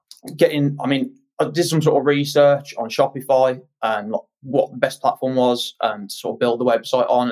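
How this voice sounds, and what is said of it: West Midlands Birmingham accent. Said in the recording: “as you can probably tell from my accent, I'm West Midlands, Birmingham.”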